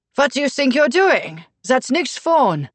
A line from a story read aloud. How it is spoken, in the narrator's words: Lars Jaeger said in his loud and accented voice